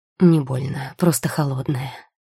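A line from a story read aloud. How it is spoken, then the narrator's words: Quiet reply. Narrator (Russian): тихо ответил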